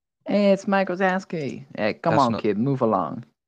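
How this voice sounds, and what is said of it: Cartoon character voice. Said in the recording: “Do the Mike Wazowski voice.”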